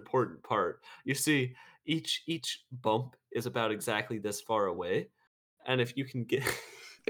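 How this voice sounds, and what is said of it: Attempted British accent. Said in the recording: “is this your attempt at the British accent?”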